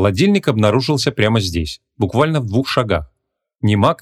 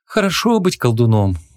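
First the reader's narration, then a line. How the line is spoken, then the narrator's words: Envious sigh. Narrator (Russian): Завистливо вздохнула Ванесса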